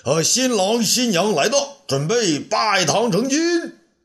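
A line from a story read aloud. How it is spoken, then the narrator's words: Shouting. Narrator (Chinese): 道儿喊道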